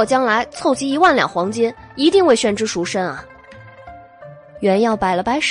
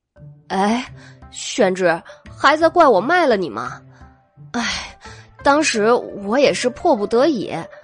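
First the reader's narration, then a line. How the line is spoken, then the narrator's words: Sighing, tearful, earnest. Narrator (Chinese): 韦燕叹了一口气，举袖抹泪，又信誓旦旦地说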